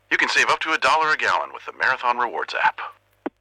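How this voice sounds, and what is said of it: Impression of Max the Bald Eagle. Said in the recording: “We asked people if they could do an impression of me ... That last one was pretty good.”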